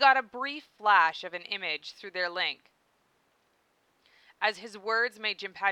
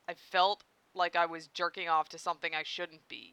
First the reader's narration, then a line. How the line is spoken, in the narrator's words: Jinpachi muttered